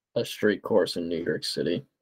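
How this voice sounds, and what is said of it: Sarcastic delivery. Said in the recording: “That's just me being sarcastic”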